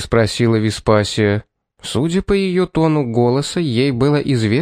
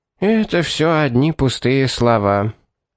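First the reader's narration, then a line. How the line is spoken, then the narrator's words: Weary. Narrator (Russian): устало произнесла Веспасия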